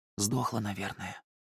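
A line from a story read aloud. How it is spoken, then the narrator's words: Whisper. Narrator (Russian): прошептал Гастат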